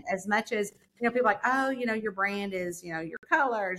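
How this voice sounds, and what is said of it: New York accent. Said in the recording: “this New York accent”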